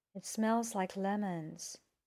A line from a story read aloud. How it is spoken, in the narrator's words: said in a faraway voice